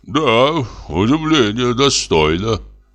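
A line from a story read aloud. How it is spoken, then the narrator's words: Sigh. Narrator (Russian): вздохнул Самойленко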